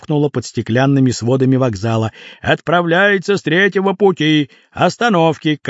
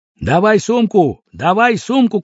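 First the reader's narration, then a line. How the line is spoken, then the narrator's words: Shouting in near-chorus. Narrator (Russian): кричали все чуть не хором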